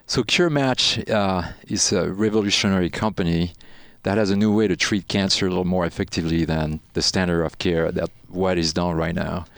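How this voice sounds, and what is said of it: Slight French accent in English. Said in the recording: “you have a bit of an accent ... So you're French then? ... this little bit of a really delicious accent, because I love hearing French people speak English”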